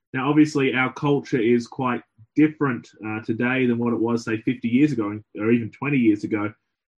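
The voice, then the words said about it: Australian accent. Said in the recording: “my accent gives it away that I'm not from here. I'm from Australia”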